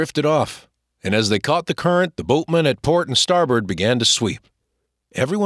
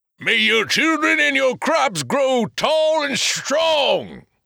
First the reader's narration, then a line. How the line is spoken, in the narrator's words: said Big Joe Dyer in his big voice